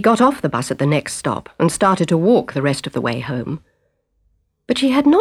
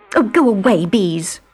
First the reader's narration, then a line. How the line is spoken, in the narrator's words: said irritably